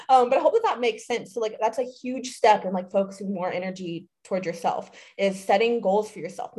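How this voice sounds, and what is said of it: Strained, hoarse voice. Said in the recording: “I'm like getting so excited. I'm like losing my voice.”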